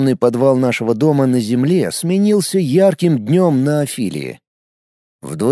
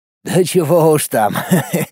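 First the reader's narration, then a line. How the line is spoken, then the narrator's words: Laughing. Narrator (Russian): засмеялся Сергей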